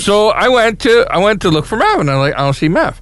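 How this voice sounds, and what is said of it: New York accent. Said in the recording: “your New York accent”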